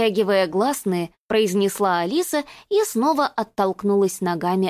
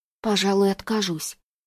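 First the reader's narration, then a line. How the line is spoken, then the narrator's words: Mumbling. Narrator (Russian): пробормотала она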